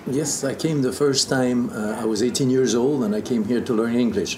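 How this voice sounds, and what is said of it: Foreign accent, dulcet tone. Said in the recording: “you got dulcet tone, and you got this great accent.”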